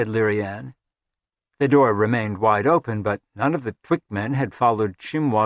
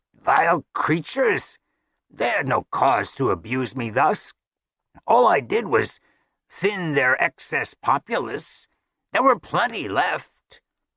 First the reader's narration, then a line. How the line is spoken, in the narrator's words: Chimwassel made a noise that was half a groan and half a croak, and said